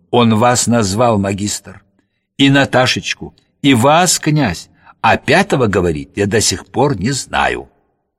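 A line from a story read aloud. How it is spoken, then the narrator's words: Ordinary voice. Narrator (Russian): Курдюков обычным голосом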